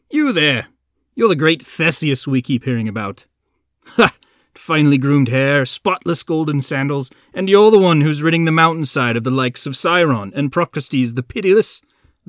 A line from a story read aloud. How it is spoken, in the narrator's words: they laughed